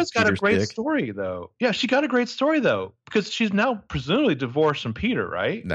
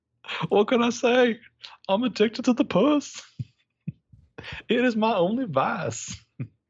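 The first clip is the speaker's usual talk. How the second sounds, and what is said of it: Imitates a character's voice. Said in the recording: “I'm just picturing Nolan North doing a Bill impression... I don't know if that's a Bill impression or not”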